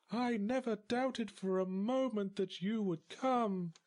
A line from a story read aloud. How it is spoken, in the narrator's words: she cooed